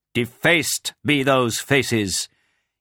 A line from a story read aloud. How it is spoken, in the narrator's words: shouting at Quraysh